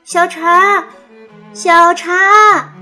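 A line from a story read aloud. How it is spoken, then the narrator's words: Loud calling. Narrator (Chinese): 它大声叫着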